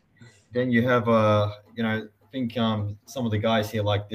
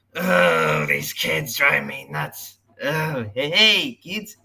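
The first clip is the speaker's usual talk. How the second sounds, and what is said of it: Imitation of a cartoon clown voice. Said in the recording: “Krusty the Clown ... Krusty the Clown are your best impersonations, I have to admit. Those are real. You nailed them.”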